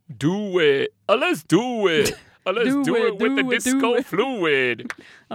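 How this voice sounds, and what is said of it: Imitates another person's voice. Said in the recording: “I have a terrible Ed Rock impression... I thought it was pretty good, though.”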